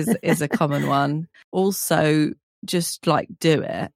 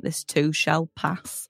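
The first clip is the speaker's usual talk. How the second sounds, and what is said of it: Put-on northern English accent. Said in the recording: “I nearly said that in a northern accent.”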